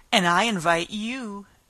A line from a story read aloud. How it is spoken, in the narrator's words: The White Queen smiled feebly and said